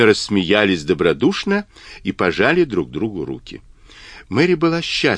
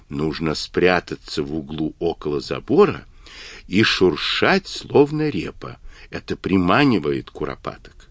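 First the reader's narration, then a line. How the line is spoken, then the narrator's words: Whispered into ear. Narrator (Russian): В ответ Джек прошептал на ухо спросившему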